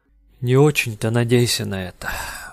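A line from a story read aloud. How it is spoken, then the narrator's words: Sigh. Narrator (Russian): вздохнул Фармен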